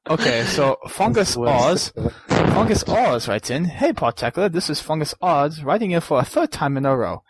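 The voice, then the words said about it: Attempted British accent. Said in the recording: “why don't you read in a British accent ... A British accent? I'll try a British accent.”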